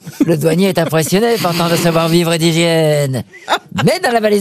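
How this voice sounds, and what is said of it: Usual voice. Nothing is said of it.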